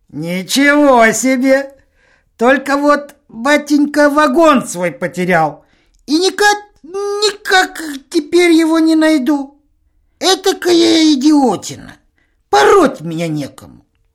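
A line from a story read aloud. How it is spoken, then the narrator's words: Giggling. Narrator (Russian): Полкообразный Иван Алексеевич покачивается и хихикает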